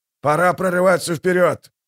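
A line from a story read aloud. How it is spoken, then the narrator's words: Barked command. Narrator (Russian): рявкнул он своим офицерам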